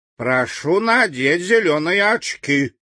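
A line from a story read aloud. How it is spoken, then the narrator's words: Stern. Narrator (Russian): строго сказал Фарамант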